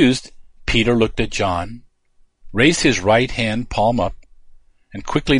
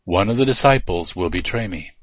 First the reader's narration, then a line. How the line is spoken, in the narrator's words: said quietly, just to those disciples closest to him